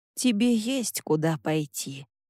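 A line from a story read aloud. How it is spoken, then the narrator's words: Sigh, then speaking. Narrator (Russian): Санми вздохнула и сказала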